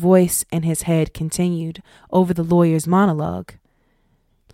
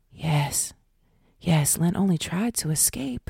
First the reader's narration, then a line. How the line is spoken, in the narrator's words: the whisper returned, this time mimicking his own voice in his head